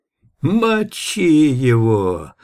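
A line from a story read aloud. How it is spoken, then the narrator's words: Wheezing rasp from behind. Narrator (Russian): просипел кто-то сзади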